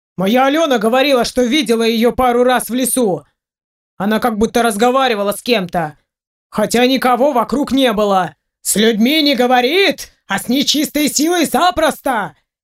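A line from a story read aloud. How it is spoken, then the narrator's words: Shout from crowd. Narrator (Russian): крикнул кто-то из толпы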